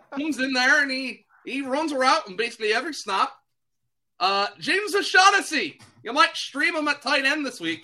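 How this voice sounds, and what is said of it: Bad put-on Irish accent. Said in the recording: “That is a terrible Irish accent”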